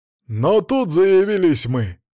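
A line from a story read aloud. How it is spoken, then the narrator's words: Booming bark, mighty man. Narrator (Russian): гаркнул Оги, могучий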